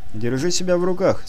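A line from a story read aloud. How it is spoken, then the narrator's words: Calm reply. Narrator (Russian): спокойно ответил Артем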